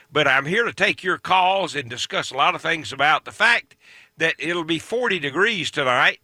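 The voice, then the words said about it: Scratchy, hoarse voice. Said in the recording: “my voice is a little scratchy. I've been sick... It just keeps you coughing all the time”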